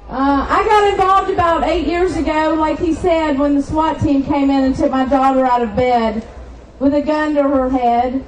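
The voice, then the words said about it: Slight Southern US accent. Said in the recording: “a little southern accent”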